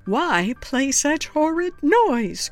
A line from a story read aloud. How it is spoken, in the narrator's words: cries Aunt Lorraine